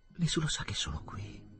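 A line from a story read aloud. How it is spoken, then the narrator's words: Weak voice, tender smile. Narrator (Italian): disse Ruth con voce debole, accennando un tenero sorriso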